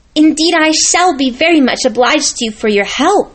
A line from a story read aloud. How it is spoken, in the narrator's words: cried Lucy